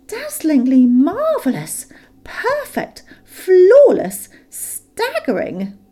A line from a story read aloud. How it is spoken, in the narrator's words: exclaimed Bilbo aloud